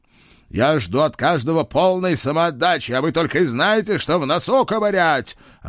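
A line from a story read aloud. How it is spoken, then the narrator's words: Boss yelling. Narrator (Russian): орал главный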